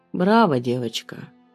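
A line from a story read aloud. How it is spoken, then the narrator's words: Calm, unafraid male voice. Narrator (Russian): говорит мужчина спокойным голосом, совсем не испугавшись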